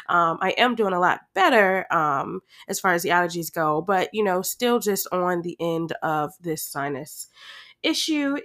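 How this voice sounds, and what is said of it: Stuffy, congested voice. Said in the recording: “my voice is a little bit icky and stuffy during this episode. I do have sinus allergies ... my voice is just a little bit icky ... I know I sound horrible”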